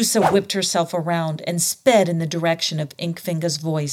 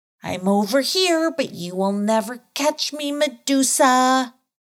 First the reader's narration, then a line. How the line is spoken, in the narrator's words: called out